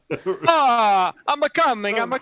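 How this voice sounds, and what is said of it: Exaggerated fake Italian accent. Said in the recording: “my voices ... Everyone's Italian. They're all Italian.”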